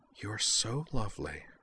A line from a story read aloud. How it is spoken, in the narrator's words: Azalyn whispered softly